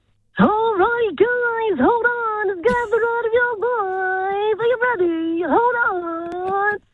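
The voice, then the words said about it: Carnival ride operator voice. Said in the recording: “could do a good carny voice ... like a carnival person ... like the carnival people ... when you're on the ride, telling you to hold on”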